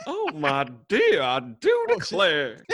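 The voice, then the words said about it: Put-on Southern belle accent. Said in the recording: “In a Southern Belle accent ... Southern Belle's the girl though ... That is pretty good ... I have the girl version of everything”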